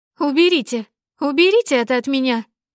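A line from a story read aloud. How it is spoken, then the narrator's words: Hysterical howling scream. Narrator (Russian): кричала ведьма, истерически завывая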